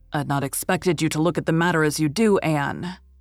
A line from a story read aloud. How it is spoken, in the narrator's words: he said a little stiffly